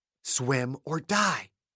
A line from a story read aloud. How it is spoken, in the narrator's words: He snarled